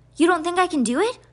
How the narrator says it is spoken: Constance snapped

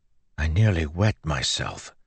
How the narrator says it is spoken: Joel whispered

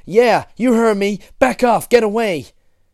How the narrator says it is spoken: Regis was shouting

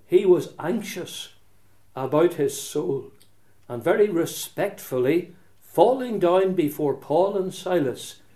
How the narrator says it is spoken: he cried out,

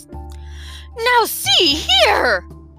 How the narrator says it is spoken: cried the startled bug

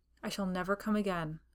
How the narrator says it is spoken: I said bitterly

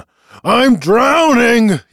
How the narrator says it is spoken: he cried

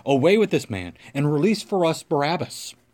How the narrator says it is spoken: they all cried out together, saying

